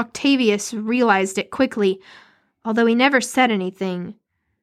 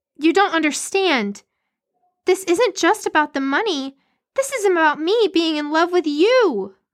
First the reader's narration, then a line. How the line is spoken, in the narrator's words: cried Priscilla